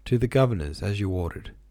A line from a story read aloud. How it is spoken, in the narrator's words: answered the coachman